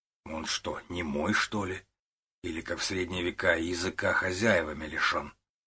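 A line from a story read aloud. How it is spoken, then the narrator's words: Grim inner joke. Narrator (Russian): мысленно мрачно пошутил Лев Иванович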